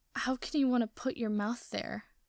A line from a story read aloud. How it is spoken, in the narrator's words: Zuko starts, and then he can't finish because he's moaning